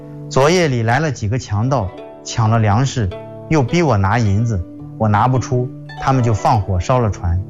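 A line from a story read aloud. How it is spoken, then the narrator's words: Old man sighing reply. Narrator (Chinese): 老人叹了口气回答说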